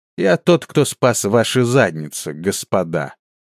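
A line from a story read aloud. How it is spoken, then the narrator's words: Mocking, sneering. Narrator (Russian): Насмешливо и, как показалось оскорбленному Леру Манруилу, глумливо ответил Хуман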